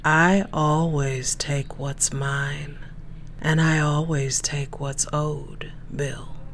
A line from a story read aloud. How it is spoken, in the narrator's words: she purred